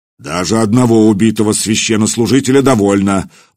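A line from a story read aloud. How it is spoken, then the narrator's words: Deep bass booming. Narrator (Russian): басом прогудел епископ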